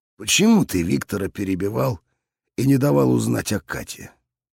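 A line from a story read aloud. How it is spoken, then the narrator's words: Plain. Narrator (Russian): спросил папа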